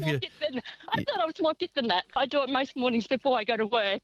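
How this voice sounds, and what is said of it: Out of breath while speaking. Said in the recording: “I can hear you're out of breath.”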